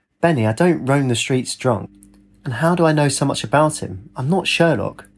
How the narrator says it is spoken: he said

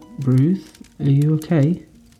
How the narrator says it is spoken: asked nervously

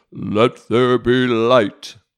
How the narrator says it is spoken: God's voice booming from the darkness

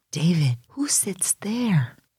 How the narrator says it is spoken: whispered Julie

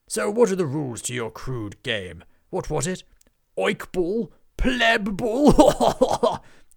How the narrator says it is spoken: The knight roared with laughter

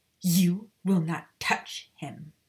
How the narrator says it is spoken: she growled

